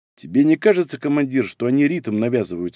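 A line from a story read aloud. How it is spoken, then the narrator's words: Plain. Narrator (Russian): спросил Цинк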